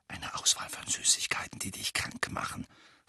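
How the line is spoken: Whispered. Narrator (German): flüsterte George

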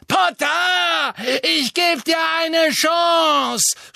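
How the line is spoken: Shouting. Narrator (German): schrie Bellatrix

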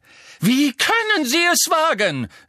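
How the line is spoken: Calling out while running. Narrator (German): rief die Gestalt im Laufen

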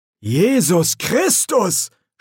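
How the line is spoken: Groan. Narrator (German): stöhnte er

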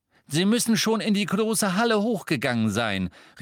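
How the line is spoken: Called out. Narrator (German): rief Mr

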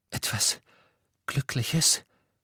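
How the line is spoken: Broken voice. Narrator (German): sagte mit gebrochener Stimme

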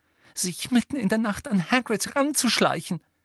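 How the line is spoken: Angry breathless gasp. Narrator (German): keuchte Hermine, die so zornig war, dass sie kaum reden konnte

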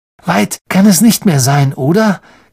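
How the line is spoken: Croaking. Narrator (German): krächzte Ron wieder

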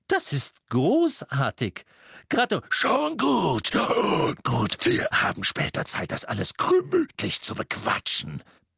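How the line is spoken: Bellowed over the noise. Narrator (German): brüllte Moody durch den Trubel

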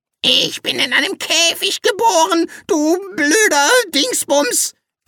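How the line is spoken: Screeching parrot. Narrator (German): kreischte der Papagei

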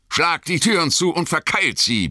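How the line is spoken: Roared. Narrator (German): brüllte Aragorn

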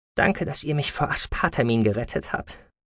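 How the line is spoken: Young woman, softly. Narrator (German): sagte die junge Frau leise

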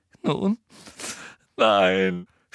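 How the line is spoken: Sobbing. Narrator (German): schluchzte Hermine

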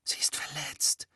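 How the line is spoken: Whispering. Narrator (German): flüsterte Harry

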